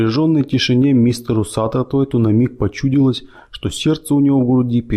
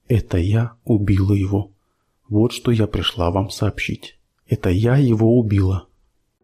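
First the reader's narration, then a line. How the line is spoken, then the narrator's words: Barely audible. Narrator (Russian): тихо, еле слышно сказала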